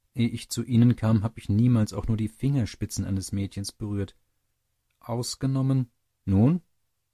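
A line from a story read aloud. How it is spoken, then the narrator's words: Plain. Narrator (German): sagte Nettchen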